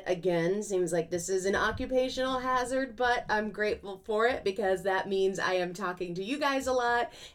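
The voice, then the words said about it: Strained, fading hoarse voice. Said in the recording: “My voice is going a little bit.”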